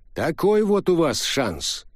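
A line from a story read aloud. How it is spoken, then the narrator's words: Snorting. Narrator (Russian): хмыкнул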